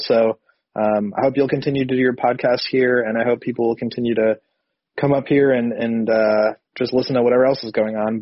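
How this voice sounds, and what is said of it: Sick, strange-sounding voice. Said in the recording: “my voice is kind of crazy. I've been sick the last couple days, so um, I sound kind of weird”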